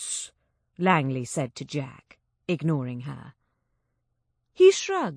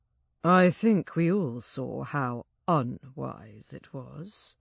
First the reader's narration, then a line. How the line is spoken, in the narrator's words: Jack muttered